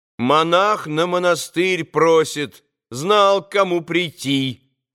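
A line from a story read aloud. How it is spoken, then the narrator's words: Loud young woman. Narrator (Russian): громко проговорила стоявшая в левом углу девица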